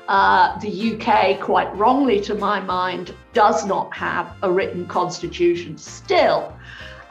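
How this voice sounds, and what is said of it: British accent. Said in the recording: “as my accent will immediately announce. I'm a Brit in origin.”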